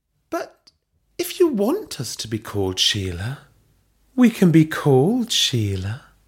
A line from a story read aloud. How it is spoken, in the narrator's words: Belinda purred